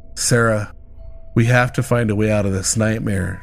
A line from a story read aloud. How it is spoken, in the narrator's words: James said, his voice trembling